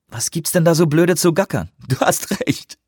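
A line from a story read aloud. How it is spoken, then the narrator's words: Giggled. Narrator (German): kicherte Anawak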